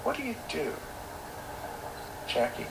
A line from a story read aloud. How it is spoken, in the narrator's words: added calmly